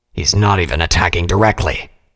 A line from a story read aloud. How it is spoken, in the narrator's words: he growled